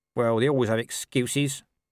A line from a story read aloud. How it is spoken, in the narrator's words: said Nobby sullenly